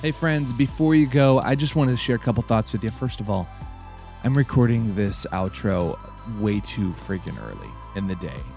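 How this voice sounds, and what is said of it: Deep, groggy early-morning voice. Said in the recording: “Can you hear it in my voice? Do I have that early morning manly voice?”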